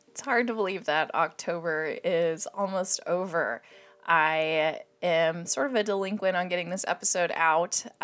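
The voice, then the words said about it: Hoarse, strained voice. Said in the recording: “hear it in my voice, but I've been dealing with a little bit of laryngitis... I feel like I still have a frog in my throat... I'm struggling to form words”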